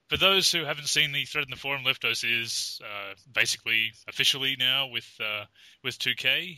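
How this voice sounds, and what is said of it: Harsh Australian accent. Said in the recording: “Australian accents. We totally understand our harsh accent”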